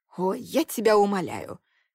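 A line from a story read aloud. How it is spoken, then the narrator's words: Snorting friend. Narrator (Russian): хмыкнула подруга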